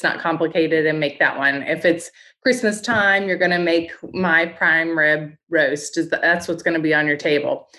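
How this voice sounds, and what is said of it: Slight Appalachian, near-southern accent. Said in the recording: “Is there something southern going on in your accent somewhere?... I've got a little Appalachian accent. It's not quite southern, but it's right there on the edge... my accent keeps getting thicker every year”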